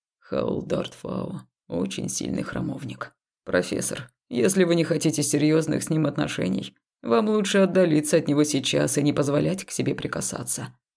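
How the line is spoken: Man's calm voice. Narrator (Russian): спокойно произнес темнокожий мужчина

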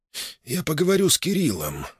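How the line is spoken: Sighing. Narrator (Russian): вздохнул Иванов

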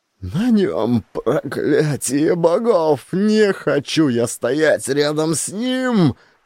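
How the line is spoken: Shrieked in fear. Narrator (Russian): Взвизгнул Сигурд

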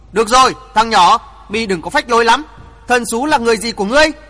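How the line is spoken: Loud old man. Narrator (Vietnamese): Bắc Cực lão nhân to tiếng nói

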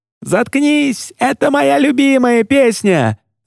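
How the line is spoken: Yelling through laughter. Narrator (Russian): заорал Джулиан в ответ, трясясь от смеха

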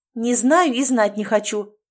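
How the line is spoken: Angry interruption. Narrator (Russian): снова сердито перебила ее Кира

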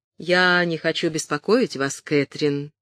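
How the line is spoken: Soft. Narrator (Russian): мягко сказал он

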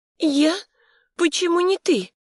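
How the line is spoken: Childish, plaintive. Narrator (Russian): прозвучало по-детски или жалобно

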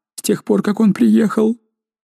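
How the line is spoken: Babbling. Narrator (Russian): Розали пролепетала

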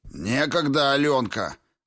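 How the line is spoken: Barked. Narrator (Russian): рявкнул Витковский

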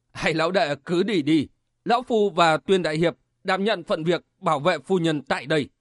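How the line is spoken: Hearty loud laugh. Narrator (Vietnamese): Quỷ Kiếm Sầu cười lớn

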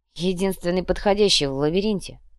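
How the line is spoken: Grumbling. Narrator (Russian): проворчал Шазгара

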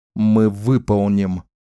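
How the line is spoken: Growl. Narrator (Russian): прорычал Ричард

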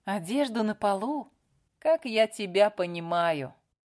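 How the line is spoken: Sigh. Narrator (Russian): вздохнула Лили

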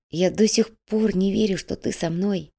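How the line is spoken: Whisper. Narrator (Russian): прошептал Илья

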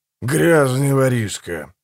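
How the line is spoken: Grumbled. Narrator (Russian): буркнул Манфред

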